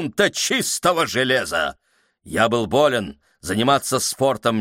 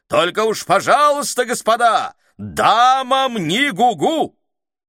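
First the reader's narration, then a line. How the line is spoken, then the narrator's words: Loud shouting after. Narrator (Russian): капитан громко кричал нам вдогонку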